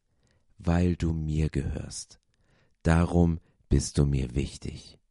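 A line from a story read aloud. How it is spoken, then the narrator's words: Very slow. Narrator (German): sagte ganz langsam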